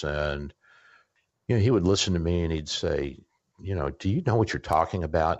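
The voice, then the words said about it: Southern US accent. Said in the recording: “I have a Southern accent”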